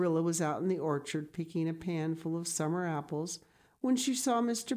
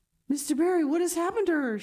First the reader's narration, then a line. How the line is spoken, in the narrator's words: she gasped, more white and shaken than the self-contained, sensible Marilla had been for many years